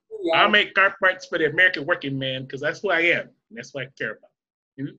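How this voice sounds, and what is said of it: Put-on Chicago accent. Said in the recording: “He got that Chicago accent down to a fucking science”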